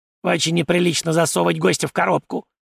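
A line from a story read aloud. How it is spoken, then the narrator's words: Angry squeak. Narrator (Russian): зло запищал он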